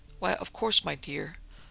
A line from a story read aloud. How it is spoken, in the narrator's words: Rachel answered quietly